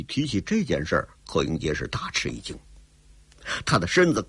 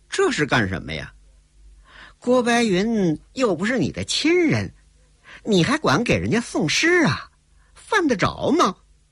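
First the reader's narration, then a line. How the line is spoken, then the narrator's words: Sneering. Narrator (Chinese): 冷笑着说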